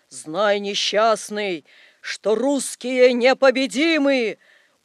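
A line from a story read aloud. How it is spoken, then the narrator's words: Sepulchral voice. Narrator (Russian): Незнакомец ответил загробным голосом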